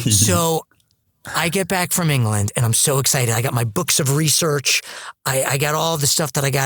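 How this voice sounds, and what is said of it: Usual voice. Nothing is said of it.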